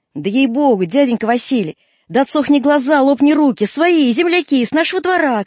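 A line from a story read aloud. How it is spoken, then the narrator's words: Boy shouting. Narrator (Russian): кричал кузнечонок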